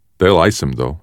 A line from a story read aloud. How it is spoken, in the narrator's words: Dink said